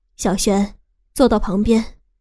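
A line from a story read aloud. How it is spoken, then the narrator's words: Sudden smiling speech. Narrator (Chinese): 我那个妈妈忽然微笑开口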